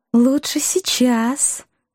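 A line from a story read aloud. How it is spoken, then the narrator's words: Honeyed purr, young woman. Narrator (Russian): самым медоточивым тоном мурлыкнула девушка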